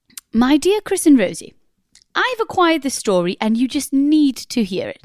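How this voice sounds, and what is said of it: Put-on posh English accent. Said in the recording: “send from a posh person. So I thought I might do it in a posh accent.”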